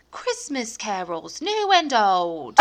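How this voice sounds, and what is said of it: Bad put-on Cockney accent. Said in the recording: “That's a really bad Cockney accent.”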